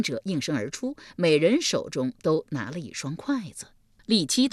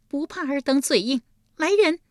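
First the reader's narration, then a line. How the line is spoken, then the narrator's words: Cold sneer. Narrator (Chinese): 一声冷笑道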